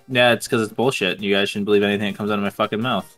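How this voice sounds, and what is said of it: Flat monotone indifferent-sounding voice. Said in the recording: “you have a monotone voice ... it usually just sounds like you don't give a fuck, so it's always the same.”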